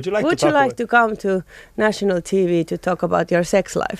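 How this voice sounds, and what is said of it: English with put-on Finnish accent. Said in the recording (Finnish): “suomi-aksentin”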